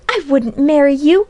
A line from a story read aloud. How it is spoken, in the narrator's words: cried Polly stormily